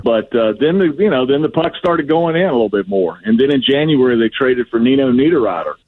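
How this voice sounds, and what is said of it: Southern American accent. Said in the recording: “a guy with a Southern accent talk about hockey”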